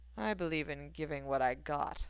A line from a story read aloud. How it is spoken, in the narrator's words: Severus replied dryly